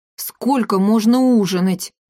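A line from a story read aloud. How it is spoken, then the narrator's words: Groaning. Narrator (Russian): простонал вдруг Триш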